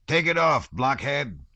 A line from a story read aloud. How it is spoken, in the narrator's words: he shouted loudly and angrily